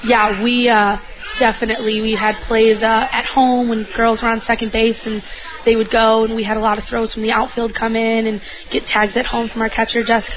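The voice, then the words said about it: Hoarse, strained voice. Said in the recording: “lost my voice,”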